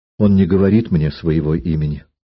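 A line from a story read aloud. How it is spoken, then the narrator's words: Timid answer. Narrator (Russian): Альдонса робко ответила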